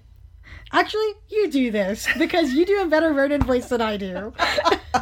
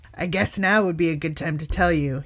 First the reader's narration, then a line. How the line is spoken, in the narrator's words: said